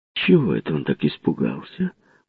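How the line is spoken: Muttered. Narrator (Russian): пробормотала кухарка

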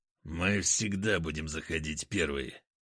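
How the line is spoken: Through gritted teeth. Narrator (Russian): процедил сквозь зубы Потап

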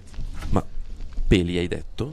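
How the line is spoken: Murmur of several voices. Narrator (Italian): Un mormorio di varie voci

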